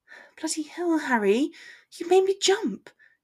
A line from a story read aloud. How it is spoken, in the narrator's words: breathed